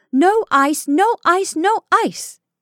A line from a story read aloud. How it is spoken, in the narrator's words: she shouted gaily